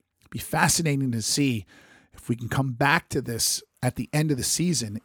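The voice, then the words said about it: Hoarse, nearly lost voice. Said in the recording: “sorry about the voice... I just lost my voice from a cold that I've been fighting for literally weeks”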